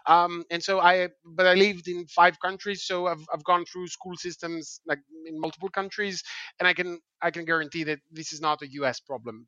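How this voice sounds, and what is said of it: Greek accent. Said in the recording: “as you can understand from my accent, I'm not originally from the US. I am from Greece.”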